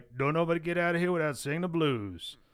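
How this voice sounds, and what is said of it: Imitating B.B. King's accent. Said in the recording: “you don't have to affect his accent”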